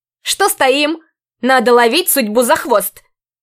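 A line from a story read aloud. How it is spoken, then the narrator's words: Shout, moving away. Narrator (Russian): прокричала симпатичная орчанка, уносясь вперед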